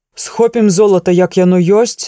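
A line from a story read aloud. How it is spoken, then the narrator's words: Grim exclamation. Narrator (Belarusian): змрочна выгукнуў Лагода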